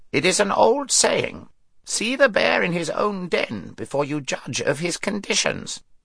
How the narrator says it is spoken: croaked the raven

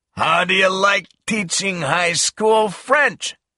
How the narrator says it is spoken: he shouted

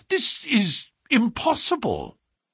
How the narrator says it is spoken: I cried

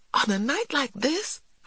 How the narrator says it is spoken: I exclaimed

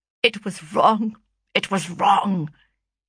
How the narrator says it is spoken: he muttered at length

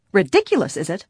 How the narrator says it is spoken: the woman retorted angrily

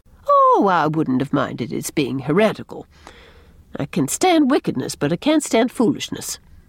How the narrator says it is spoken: said Miss Cornelia calmly, and with the air of having said the last thing there was to say about natural law

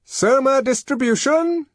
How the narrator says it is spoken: shouted a loud voice

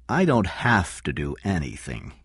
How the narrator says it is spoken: King said slowly

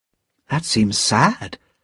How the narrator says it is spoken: said Lucy gently

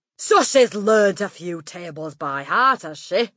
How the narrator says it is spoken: Miss Trunchbull barked

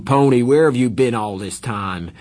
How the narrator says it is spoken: he yelled

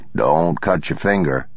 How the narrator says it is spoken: the man said

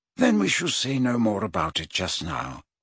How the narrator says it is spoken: said Dumbledore more kindly

